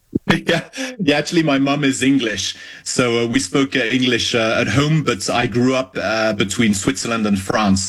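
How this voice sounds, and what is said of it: Slightly South African-sounding English accent. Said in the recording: “your accent to me sounds a little bit South African”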